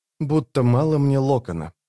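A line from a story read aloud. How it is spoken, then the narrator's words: Muttering. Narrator (Russian): пробормотала рваная снасть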